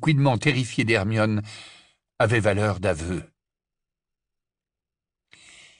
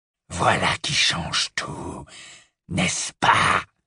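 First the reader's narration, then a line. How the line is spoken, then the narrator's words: Murmured. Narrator (French): murmura Greybac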